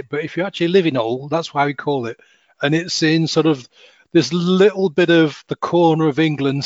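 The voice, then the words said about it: Northern English accent. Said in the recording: “I come from Sheffield, so I'm also a northerner ... my accent doesn't seem to disappeared that much apparently”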